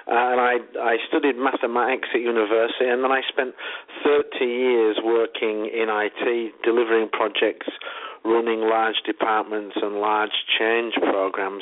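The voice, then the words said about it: Northern English accent. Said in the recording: “I guess people can tell from the accent, I'm not American, I'm English. I'm from the north of England, from a place called Leeds.”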